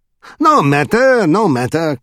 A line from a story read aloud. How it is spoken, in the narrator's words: cried the king cheerfully